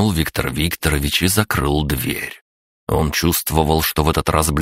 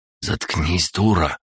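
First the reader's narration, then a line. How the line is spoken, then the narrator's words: Hissing. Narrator (Russian): прошипел Андрей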